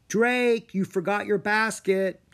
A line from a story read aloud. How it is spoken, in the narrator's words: mother called out